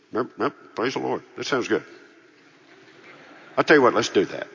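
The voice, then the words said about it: Imitates another person's voice. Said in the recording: “my lifelong imitation of Frank”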